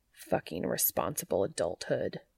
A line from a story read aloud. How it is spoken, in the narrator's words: he muttered under his breath